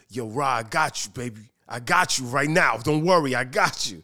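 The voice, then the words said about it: Imitates another person's voice. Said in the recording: “your busted impression?”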